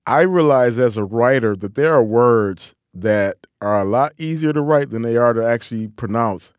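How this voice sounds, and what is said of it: Detroit Midwestern twang. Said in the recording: “my Detroit accent. You know, that old Midwestern twang that I have”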